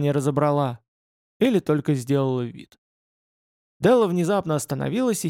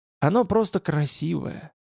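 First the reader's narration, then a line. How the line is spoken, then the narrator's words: Barely audible mumble. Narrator (Russian): пробормотал он еле слышно, почти одними губами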